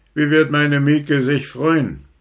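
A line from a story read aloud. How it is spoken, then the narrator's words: Calling back joyfully. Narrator (German): rief noch zurück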